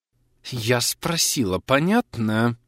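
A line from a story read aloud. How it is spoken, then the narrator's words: Angry hiss. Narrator (Russian): Зло прошипела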